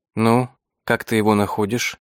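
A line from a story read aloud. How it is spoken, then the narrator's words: Quiet question in French. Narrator (Russian): тихонько спросила меня Зира по-французски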